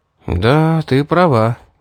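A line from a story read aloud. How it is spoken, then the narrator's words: Sigh. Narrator (Russian): вздохнул я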